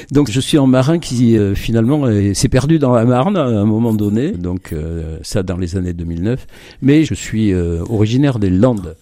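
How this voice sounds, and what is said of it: Slight southwestern French accent. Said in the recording (French): “Vous avez de temps en temps un petit accent du sud-ouest.”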